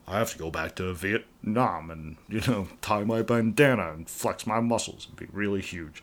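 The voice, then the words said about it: Imitates another person's voice. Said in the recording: “Stallone impression ... I do a really bad Stallone impression ... It was so spot on.”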